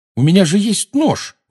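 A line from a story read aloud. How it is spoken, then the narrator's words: Exclaimed. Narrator (Russian): воскликнул Гарри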